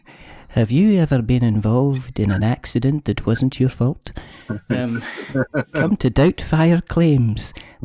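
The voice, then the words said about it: Put-on posh telephone voice. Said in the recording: “telephone voice”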